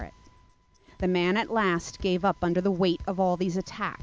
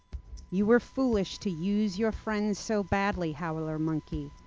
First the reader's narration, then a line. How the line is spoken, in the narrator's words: the red-eyed tree frog said quietly